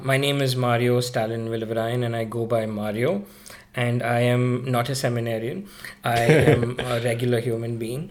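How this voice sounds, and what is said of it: Indian English accent. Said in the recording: “that's why you hear this Indian accent of mine. Not as the stereotypical one”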